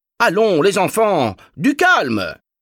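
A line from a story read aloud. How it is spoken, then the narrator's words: Thundering teacher. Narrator (French): tonna la professeure Arlette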